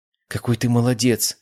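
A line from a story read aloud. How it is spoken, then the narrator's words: Exclamation. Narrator (Russian): воскликнула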